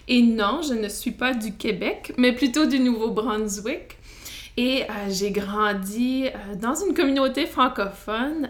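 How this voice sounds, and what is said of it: Acadian Canadian French accent. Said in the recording (French): “Vous allez sûrement entendre mon accent canadien ... Ma, ma, culture est acadienne ... on a notre propre accent”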